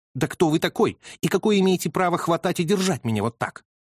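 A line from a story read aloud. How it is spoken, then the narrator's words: Snapping retort. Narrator (Russian): огрызнулась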